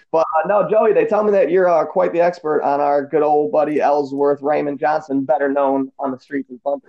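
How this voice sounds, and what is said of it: American Midwest accent. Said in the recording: “I got a stupid Midwest accent”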